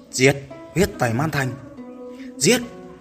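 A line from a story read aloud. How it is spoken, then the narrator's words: Roaring battle cry. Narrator (Vietnamese): đệ tử Bất Tử Môn và đại quân Man Yêu Thú hò hét rít gào, quyết chiến tới cùng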